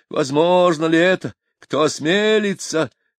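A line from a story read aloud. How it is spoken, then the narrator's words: Exclamation. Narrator (Russian): воскликнул Фирулькин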